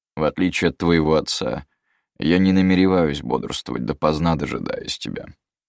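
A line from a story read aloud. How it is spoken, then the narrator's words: Dry reply. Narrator (Russian): сухо ответил волшебник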